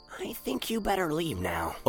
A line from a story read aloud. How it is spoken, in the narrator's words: Opus told the basilope softly